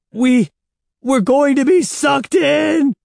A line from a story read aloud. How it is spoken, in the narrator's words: Evan screamed